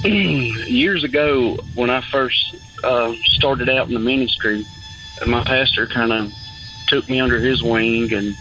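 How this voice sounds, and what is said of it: Strong rural hillbilly-sounding accent. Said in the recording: “the compliments on my accent. ... I feel like I sound like a hillbilly”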